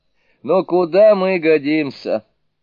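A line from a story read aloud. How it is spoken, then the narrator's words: Laughing. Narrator (Russian): рассмеялся Суню-кун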